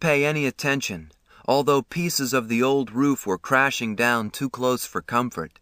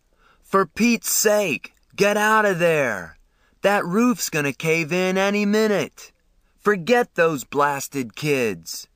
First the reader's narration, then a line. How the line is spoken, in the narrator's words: he screamed